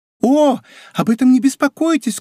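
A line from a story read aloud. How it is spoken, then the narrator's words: Shouting. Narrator (Russian): кричала госпожа Кокнар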